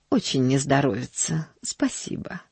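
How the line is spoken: Apathetic mutter. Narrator (Russian): пробормотала миссис Сноу, впадая в свою обычную апатию

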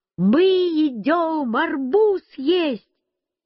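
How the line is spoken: Shouted. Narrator (Russian): Я закричал бабушке

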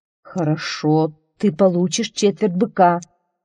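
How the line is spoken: Plain. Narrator (Russian): сказал Один

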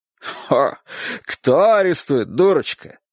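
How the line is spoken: Mocking question. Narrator (Russian): насмешливо спросил дядя Сандро

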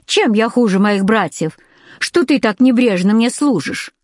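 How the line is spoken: Plain. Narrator (Russian): спросил он

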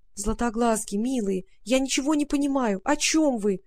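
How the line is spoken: Pleading. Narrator (Russian): взмолилась Варя

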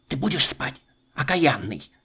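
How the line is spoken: Grandmother's muffled threatening whisper. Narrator (Russian): бабушка снова приглушенным шепотом грозится

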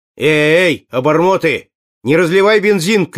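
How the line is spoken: Shouted. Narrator (Russian): крикнул

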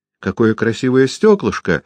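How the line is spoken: Laughing little girl's exclamation. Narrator (Russian): воскликнула маленькая девочка и, смеясь

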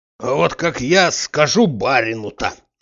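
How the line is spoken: Furious hoarse rasp. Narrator (Russian): начал с яростью хрипеть

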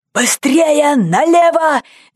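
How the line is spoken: Shouted. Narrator (Russian): закричал один из ковбоев

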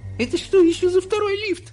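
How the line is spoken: Shrill squeal. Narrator (Russian): взвизгнула миссис Телик

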